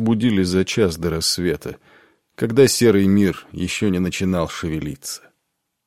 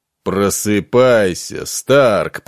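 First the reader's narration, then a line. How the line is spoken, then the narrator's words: Booming. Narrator (Russian): прогремел он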